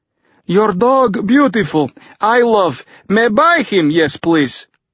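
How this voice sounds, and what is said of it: Badly broken English. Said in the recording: “Fyodor added in badly broken English.”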